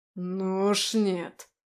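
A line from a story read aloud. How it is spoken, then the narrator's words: Sharp demonic growl. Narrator (Russian): резко рыкнул демон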